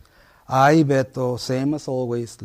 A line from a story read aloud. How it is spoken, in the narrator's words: Leticia sighs